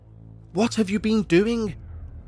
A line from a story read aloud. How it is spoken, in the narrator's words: stammered